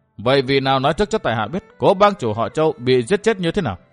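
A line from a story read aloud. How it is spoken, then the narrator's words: Cold smile. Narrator (Vietnamese): Địch Tuân cười nhạt nói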